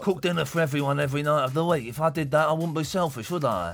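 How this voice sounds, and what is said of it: Imitates another person's voice, badly. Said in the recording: “That's a rubbish, ... rubbish ... impression. ... Worst, the worst impression.”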